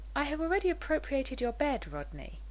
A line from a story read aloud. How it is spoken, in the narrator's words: Taylor said gently, amusement dancing in her voice